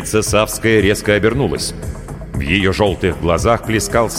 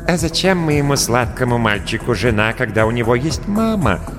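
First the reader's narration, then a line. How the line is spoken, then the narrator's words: Soft question. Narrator (Russian): мягко спросила она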